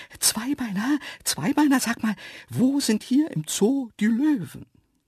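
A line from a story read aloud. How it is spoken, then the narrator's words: Breathless excited asking. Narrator (German): völlig außer Atem und fragten aufgeregt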